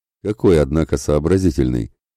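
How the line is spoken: Giant's amused snort. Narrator (Russian): хмыкнул ржебородый исполин

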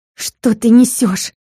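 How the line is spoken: Defensive, through teeth. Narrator (Russian): защищаясь, процедила Алина

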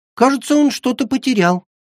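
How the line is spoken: Innocent squeak, little girl. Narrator (Russian): невинно пискнула малышка

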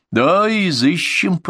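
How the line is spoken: Cracked creaky voice. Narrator (Russian): проскрипел надтреснутым голосом министр

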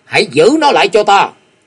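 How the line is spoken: Loud shout. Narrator (Vietnamese): tức thì quát to

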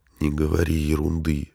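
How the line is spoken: Whispered objection. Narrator (Russian): шепотом возразил ей Марти

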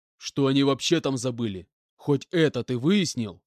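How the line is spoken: Menacing question. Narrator (Russian): грозно спросил Иванович

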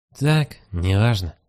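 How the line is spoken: Strained, hoarse voice. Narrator (Russian): сорванным голосом отвечает сфинкс

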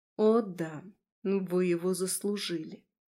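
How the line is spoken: Quiet, menacing. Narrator (Russian): Тихо и страшно проговорила она

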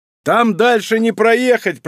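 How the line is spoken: Loud male shout. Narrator (Russian): прокричал Тимур

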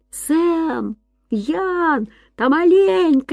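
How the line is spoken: Shouting. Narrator (Russian): крикнул он

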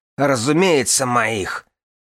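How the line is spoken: Barking. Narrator (Russian): рявкнула Вирга

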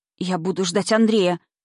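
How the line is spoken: Frightened. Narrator (Russian): испуганно сказала Намина

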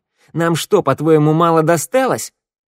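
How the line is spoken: Squeak. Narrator (Russian): Валет пискнул

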